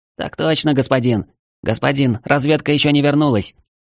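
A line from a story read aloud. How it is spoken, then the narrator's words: Quick nervous babble. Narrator (Russian): Быстро пролепетал командир тварей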